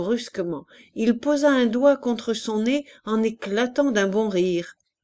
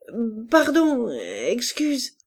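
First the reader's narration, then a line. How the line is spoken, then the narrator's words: Anxious bewildered stammering. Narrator (French): d'un air anxieux, et il bégayait, ahuri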